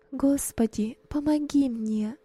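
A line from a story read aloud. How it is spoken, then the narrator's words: Whisper. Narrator (Russian): шептала она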